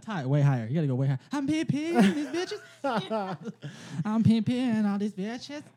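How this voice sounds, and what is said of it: Imitates another person's voice. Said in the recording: “You sound like a better R. Kelly than me.”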